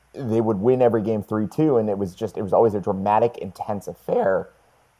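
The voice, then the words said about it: Voice cracks sharply. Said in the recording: “my voice just cracked really hard there”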